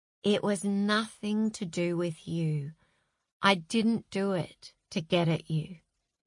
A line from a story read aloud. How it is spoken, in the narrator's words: Zach whispered in her ear